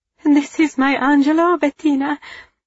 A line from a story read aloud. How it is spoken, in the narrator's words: Eva cried, laughing and weeping simultaneously